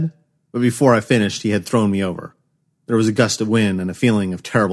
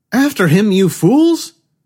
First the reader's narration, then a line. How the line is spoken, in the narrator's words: Lachey shout